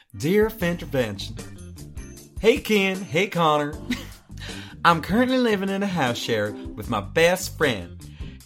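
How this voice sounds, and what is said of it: Put-on Southern Belle accent. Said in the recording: “Oh, I could do Southern Belle.”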